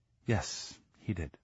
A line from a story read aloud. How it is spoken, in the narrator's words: said quietly